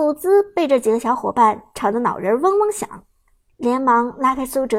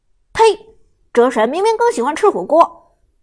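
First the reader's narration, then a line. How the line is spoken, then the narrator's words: Indignant shout. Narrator (Chinese): 马海龙不甘心的大喊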